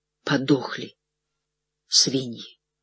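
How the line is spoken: Strained, forced out. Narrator (Russian): выдавил

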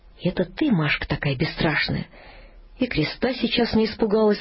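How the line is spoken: Sighing. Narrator (Russian): сказала, вздохнув

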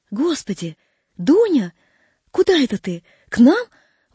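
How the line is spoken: Surprised, delighted exclamation. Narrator (Russian): воскликнула она, удивившись и обрадовавшись в одно и то же время

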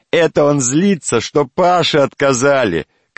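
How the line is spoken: Shouting. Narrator (Russian): кричал Вася

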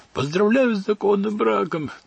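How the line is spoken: Shouting. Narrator (Russian): закричал отец Петр

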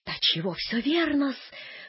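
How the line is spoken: Clerk's sigh. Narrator (Russian): вздохнул дядин приказчик

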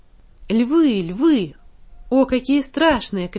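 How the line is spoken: Shouting again. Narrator (Russian): кричала она снова

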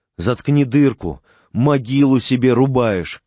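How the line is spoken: Shouting. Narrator (Russian): кричал Ковалев

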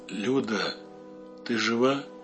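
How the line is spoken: Barely audible. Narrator (Russian): В темноте Юля еле слышно спросила

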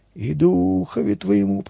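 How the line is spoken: Creaky old women's chorus. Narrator (Russian): проскрипел старушечий хор в ответ священнику

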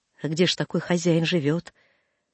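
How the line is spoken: Hoarse question. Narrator (Russian): Драб спросил хрипло

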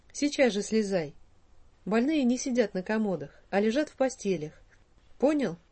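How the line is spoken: Stern, kindly man's tone. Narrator (Russian): заключил директор самым суровым тоном, какой только имелся в запасе у этого доброго человека

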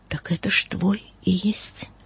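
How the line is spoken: Astonished whisper. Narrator (Russian): ангел изумленно и прошептал

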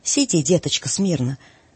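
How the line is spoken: Calm old woman. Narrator (Russian): заметила спокойно бабушка

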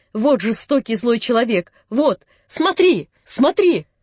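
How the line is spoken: Shout, old man. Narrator (Russian): дедушка закричал

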